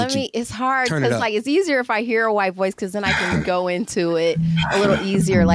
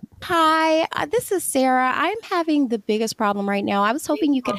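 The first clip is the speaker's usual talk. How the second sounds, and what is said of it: Put-on white girl voice. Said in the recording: “Let me hear your white girl voice. Is this the white girl voice that you're presenting to us?”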